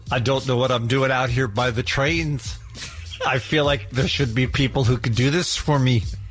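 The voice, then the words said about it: Imitates another person's voice. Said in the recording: “What would Paul say ... this makes it a good impression ... Well done.”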